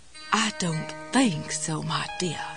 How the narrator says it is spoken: Jesse whispered in her snottiest Elizabeth Taylor cat on a hot tin roof voice

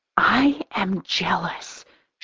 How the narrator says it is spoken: she whispers conspiratorially

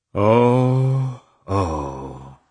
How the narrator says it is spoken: sighed deeply

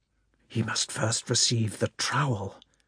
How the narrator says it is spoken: whispered one of the brothers

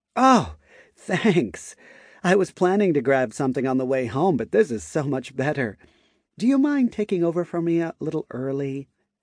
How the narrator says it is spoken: Maya giggled lightly

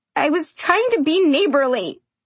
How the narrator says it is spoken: I choked out

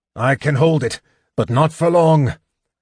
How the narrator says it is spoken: the big man grunted

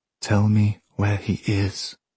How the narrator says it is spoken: I said

